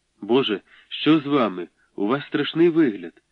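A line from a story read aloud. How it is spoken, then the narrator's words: Driver exclaiming. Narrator (Ukrainian): вигукнув водій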